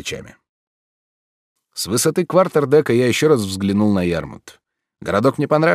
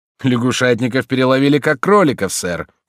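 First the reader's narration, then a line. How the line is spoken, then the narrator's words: Snorting. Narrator (Russian): фыркнул Спиджик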